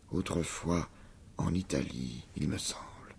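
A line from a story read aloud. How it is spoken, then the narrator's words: Murmuring. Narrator (French): murmura Jehan Maillard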